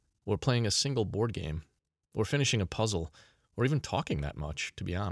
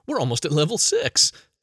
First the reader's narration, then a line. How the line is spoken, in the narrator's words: she laughed